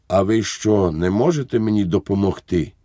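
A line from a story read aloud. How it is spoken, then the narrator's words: Weak, hopeless voice. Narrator (Ukrainian): слабким, безнадійним голосом сказав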